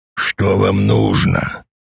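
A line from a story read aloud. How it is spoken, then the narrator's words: Hoarse question. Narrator (Russian): хрипло спросил Дач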